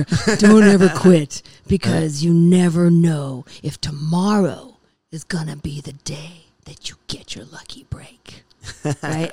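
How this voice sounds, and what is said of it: Deep voice imitating another person. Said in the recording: “I'm doing a terrible Edward James almost accent ... I'm just gonna go deeper here.”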